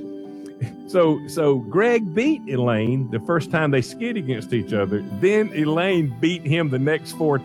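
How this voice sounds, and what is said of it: Noticeable regional accent. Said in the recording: “I know that I've got an accent”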